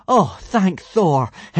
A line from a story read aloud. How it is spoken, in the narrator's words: Hiccup exclaimed joyfully